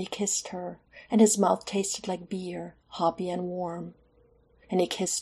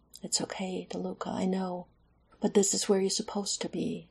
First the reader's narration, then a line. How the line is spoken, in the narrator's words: lashes wet, and he whispered